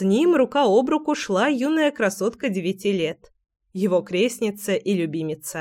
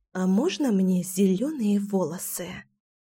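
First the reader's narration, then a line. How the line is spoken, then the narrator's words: Conspiratorial whisper. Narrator (Russian): Заговорщическим шепотом поинтересовалась Кира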